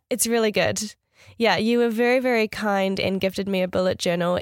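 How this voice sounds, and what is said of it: Nasal voice from a cold. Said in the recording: “I'm feeling a little bit under the weather at the moment. So if I sound a little bit nasally ... I've got a bit of a cold”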